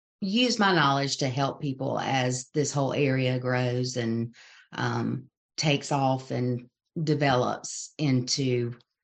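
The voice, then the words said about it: Southern American accent. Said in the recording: “I love the Southern accent.”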